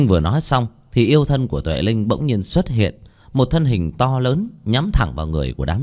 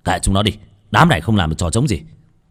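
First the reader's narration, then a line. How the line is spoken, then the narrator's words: Shouted. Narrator (Vietnamese): Một tên quát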